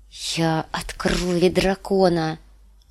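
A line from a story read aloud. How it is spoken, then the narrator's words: Loud brave whisper. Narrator (Russian): громко прошептала Дэнни, чтобы поддержать в себе отвагу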